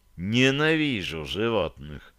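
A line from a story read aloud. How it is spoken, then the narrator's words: Muttering. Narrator (Russian): пробормотал Реджи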